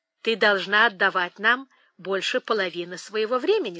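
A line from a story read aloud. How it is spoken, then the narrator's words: Plain. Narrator (Russian): сказал он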